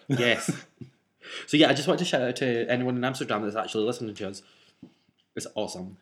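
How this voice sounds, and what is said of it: Noticeable accent. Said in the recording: “They're maybe trying to figure out your accent.”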